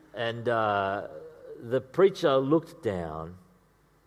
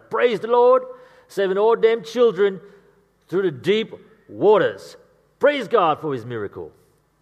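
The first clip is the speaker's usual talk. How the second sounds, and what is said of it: Put-on accent of church congregant. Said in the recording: “I've been working on that accent, by the way.”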